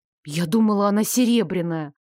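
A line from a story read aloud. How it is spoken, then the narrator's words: Muttering. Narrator (Russian): буркнула я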